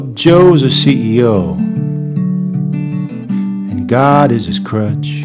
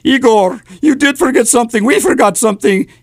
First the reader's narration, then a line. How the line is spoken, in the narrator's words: the doctor choked out